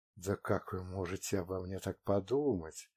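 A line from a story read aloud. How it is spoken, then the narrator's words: Whisper in ear. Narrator (Russian): шепнула я ему в ухо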